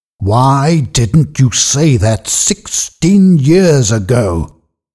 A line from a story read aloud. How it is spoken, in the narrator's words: asked furiously